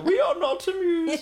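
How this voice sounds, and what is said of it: Impression of the Queen. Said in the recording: “that was not Her Majesty. That was me doing an impression.”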